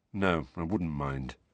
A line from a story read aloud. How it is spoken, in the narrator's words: Harry mumbled